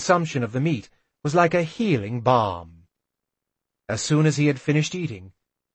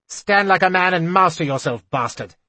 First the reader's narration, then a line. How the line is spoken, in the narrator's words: Galen told me harshly